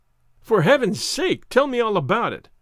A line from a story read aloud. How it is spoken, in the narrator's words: I cried impatiently